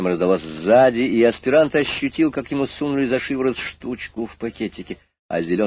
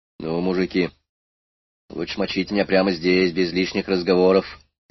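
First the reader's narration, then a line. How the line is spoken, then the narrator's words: Calm, frank. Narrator (Russian): спокойно и честно сказал аспирант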